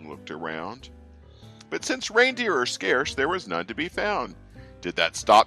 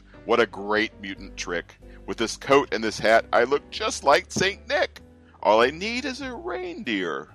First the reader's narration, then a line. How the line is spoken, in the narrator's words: chuckled and clucked